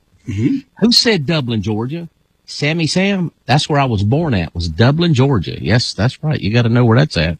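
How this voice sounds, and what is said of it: Georgia Southern US accent. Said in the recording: “Dublin, Georgia, not Ireland. You can tell by the accent.”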